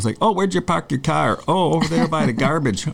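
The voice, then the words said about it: Put-on Cleveland accent. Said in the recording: “I had a guy from Cleveland on here ... I literally could not get out of that accent ... You do a good job.”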